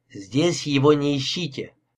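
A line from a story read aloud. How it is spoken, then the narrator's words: Categorical declaration. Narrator (Russian): категорическим тоном заявил Мескола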